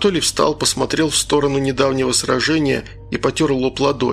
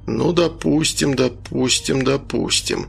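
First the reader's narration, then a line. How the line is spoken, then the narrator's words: Muttering. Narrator (Russian): забормотал он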